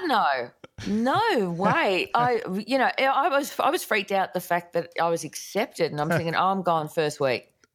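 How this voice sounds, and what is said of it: Australian accent. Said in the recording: “why are they gonna get an Aussie on there ... I love her accent”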